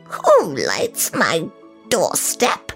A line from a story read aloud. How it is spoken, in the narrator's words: She croaked